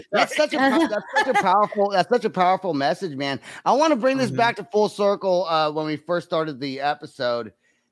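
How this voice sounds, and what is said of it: American country accent, growly voice. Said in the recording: “Yes, you do ... country accent ... You have that growl.”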